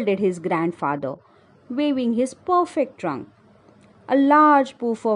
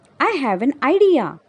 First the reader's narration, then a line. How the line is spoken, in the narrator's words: cried Mika, the monkey